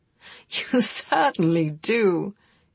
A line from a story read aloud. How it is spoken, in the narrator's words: he laughed, cheered by her apparent return to good humor